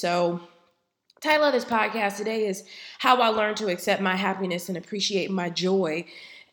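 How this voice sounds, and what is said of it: Slightly raspy voice. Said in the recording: “I am slightly under the weather, so my voice is just a tad bit raspy. I am getting over a head cold”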